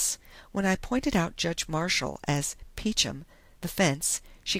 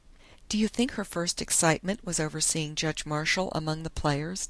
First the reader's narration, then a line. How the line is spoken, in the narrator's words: Dundee asked